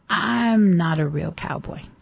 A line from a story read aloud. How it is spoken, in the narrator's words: In a gruff, hesitant voice, he said